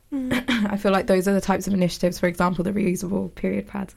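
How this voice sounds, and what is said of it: Hoarse, fading voice. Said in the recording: “I don't know why I'm losing my voice.”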